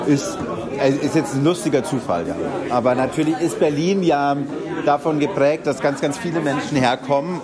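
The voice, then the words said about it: Strong Bavarian German accent. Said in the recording (German): “starker bayerischer Akzent. Bayerischer Akzent? ... Hier in Berlin sagen alle, man hört sehr.”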